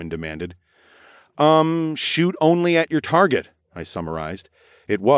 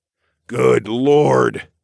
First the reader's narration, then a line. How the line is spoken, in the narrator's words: Darwin sighed